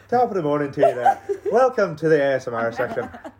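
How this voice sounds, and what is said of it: Put-on Irish accent. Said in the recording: “do an Irish accent”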